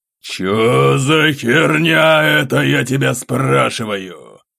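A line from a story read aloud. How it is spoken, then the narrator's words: Full-voiced bark. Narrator (Russian): На этот раз уже во весь голос рявкнул граф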